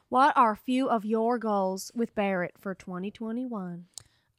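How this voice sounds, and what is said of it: Put-on Southern accent. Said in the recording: “I'll just give her a southern accent.”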